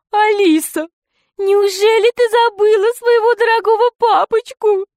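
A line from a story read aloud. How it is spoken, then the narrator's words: Whiny tearful voice. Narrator (Russian): сказал толстяк плаксивым голосом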